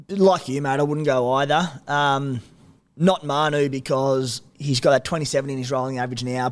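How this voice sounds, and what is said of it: Strained, fading voice. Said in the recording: “my voice is on the way out”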